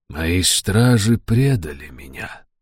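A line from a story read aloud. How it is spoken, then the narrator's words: Soft. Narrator (Russian): мягко проговорил Джадефер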